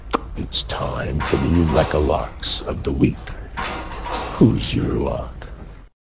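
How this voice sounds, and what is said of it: Creepy stalker-like voice. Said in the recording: “not in a creepy stalker voice”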